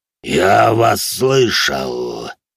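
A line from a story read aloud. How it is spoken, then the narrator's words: Inhuman growl. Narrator (Russian): прорычал он нечеловеческим голосом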